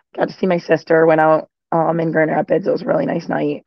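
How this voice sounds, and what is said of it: Slightly hoarse voice. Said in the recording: “I'm a little hoarse. I had a few too many drinks last night.”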